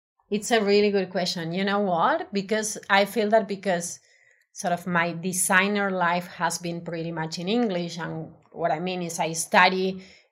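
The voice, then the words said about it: Spanish accent speaking English. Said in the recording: “I'm aware that I have an accent. So my native language is Spanish.”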